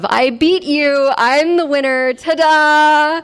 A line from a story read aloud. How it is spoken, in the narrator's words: We were all laughing hysterically